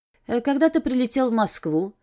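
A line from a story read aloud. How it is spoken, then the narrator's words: Polite, indifferent. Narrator (Russian): спросила я его вежливым и безразличным тоном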